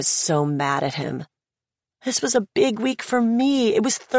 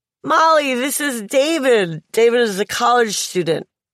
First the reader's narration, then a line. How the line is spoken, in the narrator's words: He started slurring